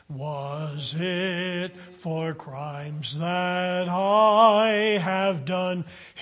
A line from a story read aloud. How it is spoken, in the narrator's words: he groaned upon the tree